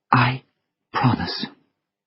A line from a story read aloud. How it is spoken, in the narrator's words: she whispered